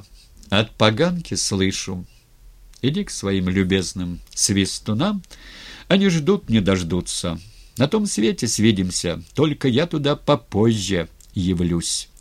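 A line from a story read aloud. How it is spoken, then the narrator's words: Calm. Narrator (Russian): Сказал спокойно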